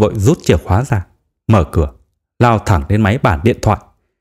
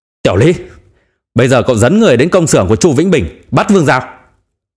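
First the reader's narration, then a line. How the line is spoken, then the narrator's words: Furious roar. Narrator (Vietnamese): gầm lên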